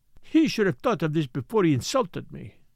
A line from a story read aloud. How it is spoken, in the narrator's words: she cried